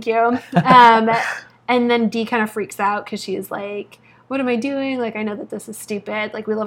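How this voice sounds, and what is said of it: Usual voice. Nothing is said of it.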